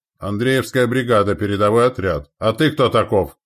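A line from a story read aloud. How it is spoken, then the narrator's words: Raven barking reply. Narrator (Russian): рявкнул в ответ ворон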